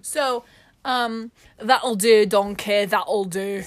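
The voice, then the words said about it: Scottish-accented cartoon ogre voice. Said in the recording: “So, that's Scottish. ... That's Shrek. ... The Shrek dialect, specifically. Yeah. It's its own dialect.”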